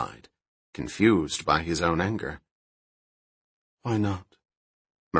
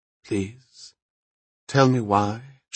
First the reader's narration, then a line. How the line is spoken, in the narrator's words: she asked calmly